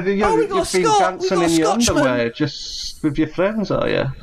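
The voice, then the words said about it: Scottish accent. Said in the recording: “he's got a lovely Scotch accent ... I can't understand what he's saying”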